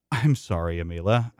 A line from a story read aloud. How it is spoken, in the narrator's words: say, still forcing out uncomfortable chuckles